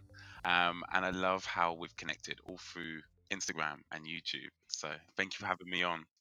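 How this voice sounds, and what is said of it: British accent. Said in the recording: “I'm in the UK, if you can tell by my British accent.”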